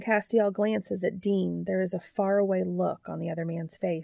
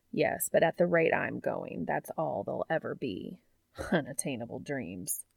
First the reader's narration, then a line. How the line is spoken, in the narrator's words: Castiel snorts